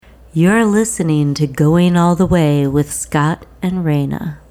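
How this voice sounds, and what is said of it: Polished public-radio announcer voice. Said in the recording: “the most NPR shit I've ever heard... Got a good NPR voice... You were so poised... It came out like we are listening to the new season of Serial.”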